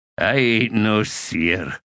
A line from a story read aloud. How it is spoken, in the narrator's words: Cuttle grunted